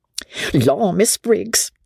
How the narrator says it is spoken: the girl exclaimed

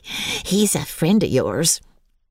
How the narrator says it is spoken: chuckled Dickon

